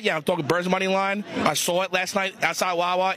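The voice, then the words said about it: Philadelphia East Coast accent. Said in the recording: “a Philadelphian accent ... Born and raised ... an East Coast voice”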